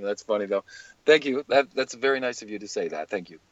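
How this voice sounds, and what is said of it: Voice resembling Matt Damon's. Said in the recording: “you totally sound like Matt Damon ... you picked up, like, some kind of accent down there”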